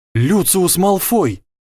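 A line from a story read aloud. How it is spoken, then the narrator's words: Breathless exclamation. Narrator (Russian): выдохнул Гарри Поттер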